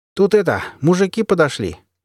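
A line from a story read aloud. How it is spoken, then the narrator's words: Cheerful. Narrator (Russian): весело сообщил он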